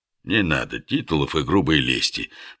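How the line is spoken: Soft interruption. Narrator (Russian): мягко остановил хозяин и наш герой

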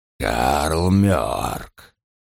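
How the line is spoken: Quiet. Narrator (Russian): тихо произнес он

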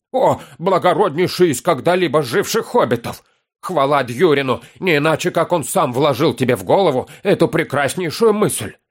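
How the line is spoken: Wild yell. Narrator (Russian): Завопил Торин

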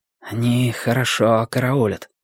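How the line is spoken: Whisper. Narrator (Russian): прошептал Дик

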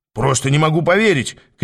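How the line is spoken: Shout while running past. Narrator (Russian): крикнул, пробегая мимо Аас

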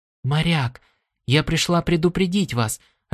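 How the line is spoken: Quick whisper. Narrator (Russian): раздался ее быстрый шепот

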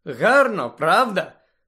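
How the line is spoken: Joyful question. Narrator (Ukrainian): радісно запитала Луна

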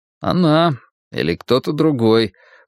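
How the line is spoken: Grumbled. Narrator (Russian): проворчал я

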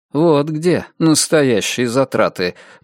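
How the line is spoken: Gloomy. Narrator (Russian): мрачно прокомментировал Перси

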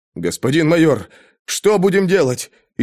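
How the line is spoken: Frightened question. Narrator (Russian): испуганно спросил маршал

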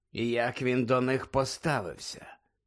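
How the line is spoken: Quiet question. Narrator (Ukrainian): тихо запитав Муді

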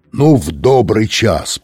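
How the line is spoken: Roaring through megaphone. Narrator (Russian): проревел мегафон

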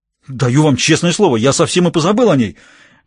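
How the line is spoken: Embarrassed exclamation. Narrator (Russian): воскликнул доктор, покраснев

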